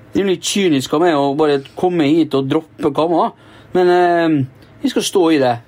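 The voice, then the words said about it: Poor imitation of another person's voice. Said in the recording (Norwegian): “hvorfor har du parodiert den Bjørn Rune Gjelsten? ... Det var det dårligste jeg har hørt!”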